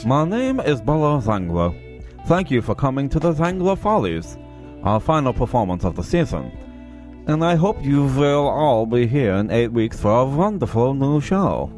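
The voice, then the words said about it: Attempted Hungarian accent sounding French. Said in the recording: “Hungarian accent ... Like, exaggerate the V's ... That's French.”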